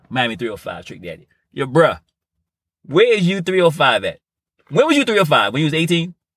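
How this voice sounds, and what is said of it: Put-on Miami Dade County accent. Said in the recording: “I'm at you with the Dade County accent.”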